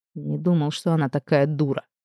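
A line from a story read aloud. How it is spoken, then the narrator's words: Through gritted teeth. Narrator (Russian): процедил Эдвард сквозь зубы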